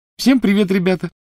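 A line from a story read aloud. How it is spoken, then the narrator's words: Cheerful. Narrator (Russian): весело сказала Полумна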